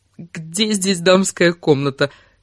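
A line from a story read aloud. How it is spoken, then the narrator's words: Exhausted, strained. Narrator (Russian): из последних сил выдавила она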